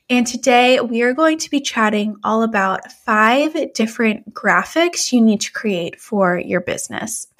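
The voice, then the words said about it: Congested voice from a cold. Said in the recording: “I'm feeling a little bit under the weather, as you can probably tell by my voice... if my voice does not sound like normal, if it sounds like I'm fighting a cold”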